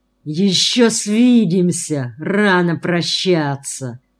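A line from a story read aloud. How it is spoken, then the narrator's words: Hissed. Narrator (Russian): прошипел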